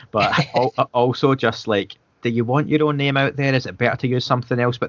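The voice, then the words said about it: Scottish accent. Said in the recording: “it's hard to pronounce with a Scottish accent”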